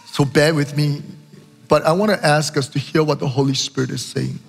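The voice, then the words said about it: Hoarse, strained sore-throat voice. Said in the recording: “apologize for my voice. It's 4 weeks into this sore throat, and I am struggling with my voice still.”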